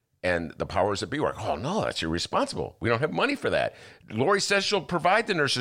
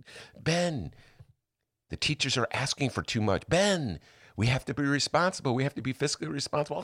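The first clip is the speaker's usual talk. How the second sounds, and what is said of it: Mocking voice of a generic liberal. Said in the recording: “a new impression, a new voice you got there ... It's just like a general Northside liberal.”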